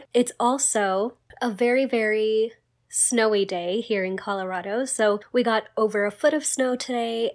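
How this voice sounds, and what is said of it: Voice not fully back to normal. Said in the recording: “my voice sounds a little bit different, I am feeling much, much better, but my voice hasn't gotten fully back to normal yet, so that's why I sound a little bit different”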